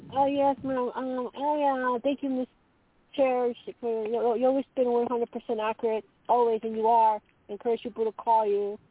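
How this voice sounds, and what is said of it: Italian-sounding accent. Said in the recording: “I detect an accent ... I'm Italian”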